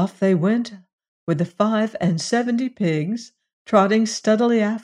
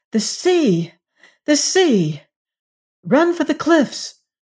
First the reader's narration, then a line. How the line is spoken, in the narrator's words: the princess cried out